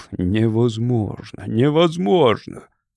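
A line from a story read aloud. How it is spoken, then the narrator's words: Indignant hissing. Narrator (Russian): Люди возмущенно шипели ему в спину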